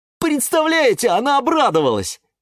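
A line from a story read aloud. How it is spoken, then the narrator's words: Exclaimed. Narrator (Russian): воскликнул он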